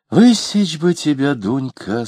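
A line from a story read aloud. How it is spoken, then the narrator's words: Said with a sigh. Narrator (Russian): сказала Алина, вздохнув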